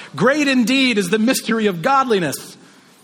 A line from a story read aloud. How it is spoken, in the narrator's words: he just shouts